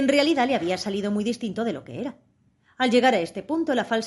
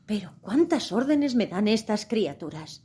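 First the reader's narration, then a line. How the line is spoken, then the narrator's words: Speaking softly. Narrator (Spanish): dijo Alicia en voz baja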